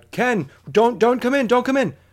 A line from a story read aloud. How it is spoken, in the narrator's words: I shout out